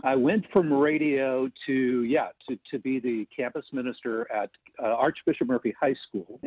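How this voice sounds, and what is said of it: Deep radio voice. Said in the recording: “has that deep voice ... He worked in radio”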